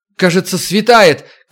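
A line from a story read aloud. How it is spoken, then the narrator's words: Shouted. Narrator (Russian): крикнула Макс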